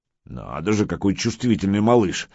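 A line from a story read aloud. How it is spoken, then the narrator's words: Grumbling master. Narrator (Russian): ворчал мастер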